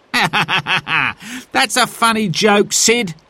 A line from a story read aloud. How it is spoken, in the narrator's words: said Harry, laughing